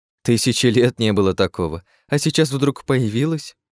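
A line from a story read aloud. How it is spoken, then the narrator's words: Skeptical snort. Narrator (Russian): Хмыкнула Астария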